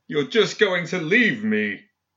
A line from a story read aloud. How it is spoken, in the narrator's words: Philip shouted after her in an anguished voice